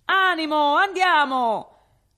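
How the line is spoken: Shouting. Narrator (Italian): gridando

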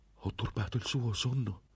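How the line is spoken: Startled exclamation. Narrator (Italian): esclamò

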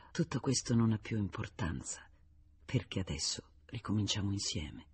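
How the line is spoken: Whispered. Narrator (Italian): le avrebbe sussurrato

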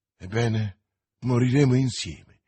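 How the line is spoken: Young man exclaiming. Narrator (Italian): esclamò il giovane

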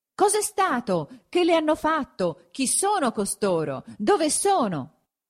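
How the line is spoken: Many voices shouting at once. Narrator (Italian): gli veniva gridato da 50 voci a un tratto

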